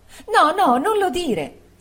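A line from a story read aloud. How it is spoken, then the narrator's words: Exclaimed. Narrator (Italian): esclamò Dora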